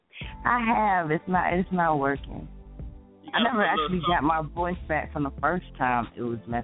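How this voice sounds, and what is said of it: Raspy, dry-throated voice. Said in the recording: “I'm a little raspy again this morning ... my throat is a little... I'm dry in the throat today.”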